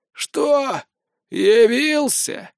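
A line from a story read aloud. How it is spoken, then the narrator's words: Sudden creaky voice. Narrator (Russian): проскрипел вдруг Гнор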